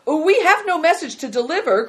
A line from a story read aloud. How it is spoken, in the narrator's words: cried Christian in alarm